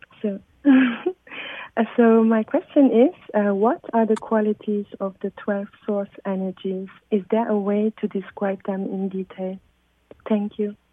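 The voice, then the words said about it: Speaks with a noticeable accent. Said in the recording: “I love her accent. It's so beautiful.”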